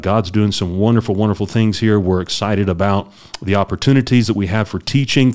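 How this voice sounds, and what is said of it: Slightly rough, coughy voice. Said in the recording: “Still have a little bit of cough, a little bit of hang up in my throat, and so you'll hear that in my voice just a little bit”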